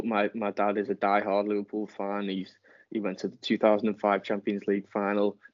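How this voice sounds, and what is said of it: English accent from near Liverpool. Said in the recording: “as you can probably tell from my accent, I'm not from Mansfield, so I'm from near Liverpool”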